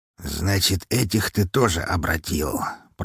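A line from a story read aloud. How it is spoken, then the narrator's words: Mutter. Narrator (Russian): пробормотал он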